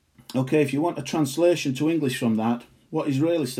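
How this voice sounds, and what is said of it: Usual voice. Nothing is said of it.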